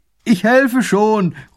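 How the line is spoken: Calling from afar. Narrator (German): ruft er von Weitem

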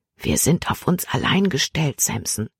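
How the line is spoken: Whispering in ear. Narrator (German): flüsterte ihm ins Ohr

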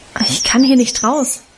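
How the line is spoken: Plain. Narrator (German): antwortete ich

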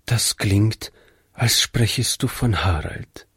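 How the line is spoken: Quiet remark. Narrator (German): meinte Frau Jensen leise

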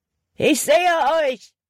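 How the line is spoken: Calling out. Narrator (German): rief Hutton

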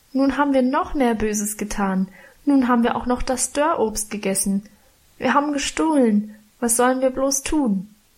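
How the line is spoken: Wailing lament. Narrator (German): jammerte ich

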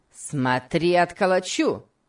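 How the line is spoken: Shouting. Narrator (Russian): крикнул Сэмбо

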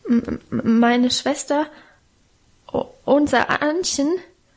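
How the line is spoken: Frightened stammering. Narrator (German): stotterte er vor dem gelben, knochigen Gesicht der Alten

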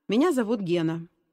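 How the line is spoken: Calm. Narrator (Russian): спокойно произнес новенький

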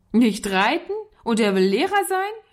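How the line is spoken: Laughing shout, boy. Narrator (German): rief der Junge lachend

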